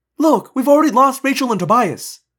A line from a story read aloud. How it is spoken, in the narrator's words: I blurted